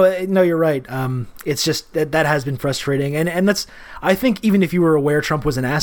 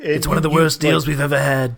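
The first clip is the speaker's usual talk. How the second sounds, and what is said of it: Imitates another person's voice. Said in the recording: “I got to work on that impression.”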